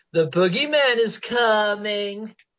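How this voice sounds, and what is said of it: Imitates a movie character's voice. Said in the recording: “That was a good accent. You have a good Lonnie accent.”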